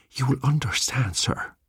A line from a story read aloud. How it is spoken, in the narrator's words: breathed the old man